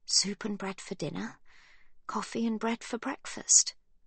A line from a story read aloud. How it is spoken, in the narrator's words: Livy mutters